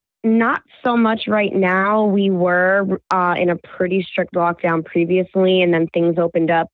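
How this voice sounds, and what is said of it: Voice sounds slightly unwell. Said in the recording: “Don't mind my voice. I'm just getting over a cold, so my voice is a little.”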